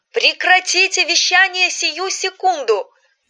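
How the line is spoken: Shouted. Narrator (Russian): выкрикнул черно-белый человек

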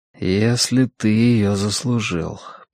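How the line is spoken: Mutter. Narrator (Russian): пробормотал он

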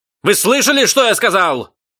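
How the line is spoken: Sudden yell. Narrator (Russian): Вдруг заорал человек в картинках

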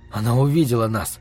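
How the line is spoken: Whispered. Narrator (Russian): прошептал я Марине

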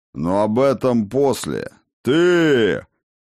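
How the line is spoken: Growled again. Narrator (Russian): он вновь зарычал на снежноволосую

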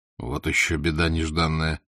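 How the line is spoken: Whisper. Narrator (Russian): прошептал Алексич

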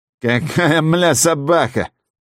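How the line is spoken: Nasal goose voice. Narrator (Russian): гнусавит гусь

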